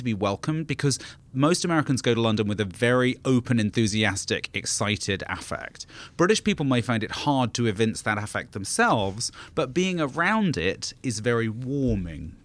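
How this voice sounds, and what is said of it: British accent softened by American influence. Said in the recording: “I sound like Madonna to real British people because my accent is so bastardized by living in America for so long”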